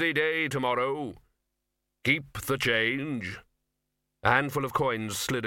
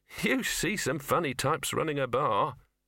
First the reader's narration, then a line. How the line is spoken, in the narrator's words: he muttered